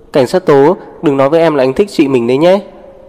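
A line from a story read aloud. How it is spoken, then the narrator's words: Laughing, amused. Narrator (Vietnamese): Diệp Lan không tức giận mà bật cười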